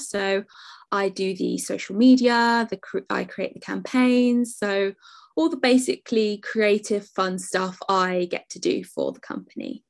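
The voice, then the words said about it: Non-American English accent. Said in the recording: “you don't have an American accent”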